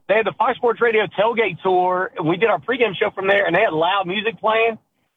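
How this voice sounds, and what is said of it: Hoarse, strained voice. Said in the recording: “So I'm a little hoarse. It's a pony show today for me because I'm a little hoarse.”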